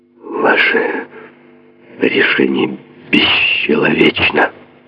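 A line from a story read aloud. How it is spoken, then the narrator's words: Hoarse, slightly drawling. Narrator (Russian): прохрипел Мерф, чуть растягивая слова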